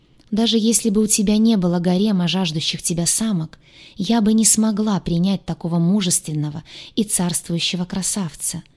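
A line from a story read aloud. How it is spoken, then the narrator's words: Soft smiling voice. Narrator (Russian): Мягко улыбнулась она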